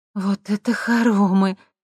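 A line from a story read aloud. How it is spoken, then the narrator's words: Respectful drawl. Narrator (Russian): уважительно протянула Лера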